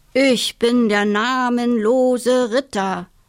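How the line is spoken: Announcing in disguised voice. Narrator (German): verkündete sie mit verstellter Stimme

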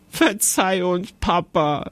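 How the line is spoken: Giggling. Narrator (German): sagte Jonathan kichernd

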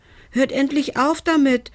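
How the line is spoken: Called out. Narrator (German): rief er

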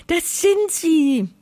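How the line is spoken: Excited small voice calling. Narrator (German): ruft die kleine Wolke aufgeregt

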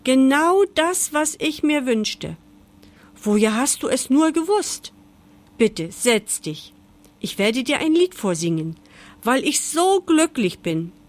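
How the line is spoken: Turtle calling out. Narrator (German): rief die Schildkröte

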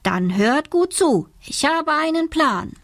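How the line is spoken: Calling out. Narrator (German): ruft

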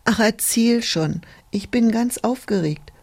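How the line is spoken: Slightly impatient call. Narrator (German): rief ein wenig ungeduldig das Schneeglöckchen

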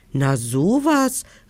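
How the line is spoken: Calling down. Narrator (German): rief König Krümel hinunter

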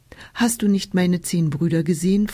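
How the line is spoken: Plain. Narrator (German): fragte Hiladi

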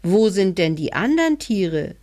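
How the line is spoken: Child calling upward. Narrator (German): rief der kleine Hebelmann hinauf

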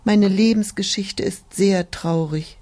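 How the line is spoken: Sighing. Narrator (German): die Tulpe seufzte

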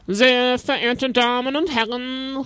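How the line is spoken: Called out. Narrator (German): rief er

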